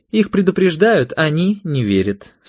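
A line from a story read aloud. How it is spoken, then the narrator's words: Dry reply. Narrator (Russian): сухо ответила Екатерина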